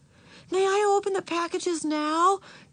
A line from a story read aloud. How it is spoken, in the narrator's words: Beezus asked eagerly